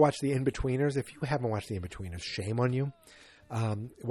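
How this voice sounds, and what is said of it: Usual voice. Nothing is said of it.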